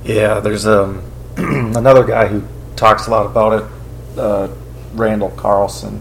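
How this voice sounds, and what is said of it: Hoarse, fading voice. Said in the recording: “I'm really losing my voice here though. ... my voice is going.”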